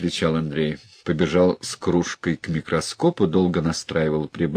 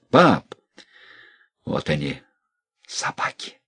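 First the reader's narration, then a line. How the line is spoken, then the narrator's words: Whisper. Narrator (Russian): прошептал Андрей Ерин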